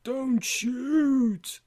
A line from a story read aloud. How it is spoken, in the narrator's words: the zombie groans